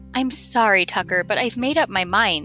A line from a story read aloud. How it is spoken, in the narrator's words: said Chester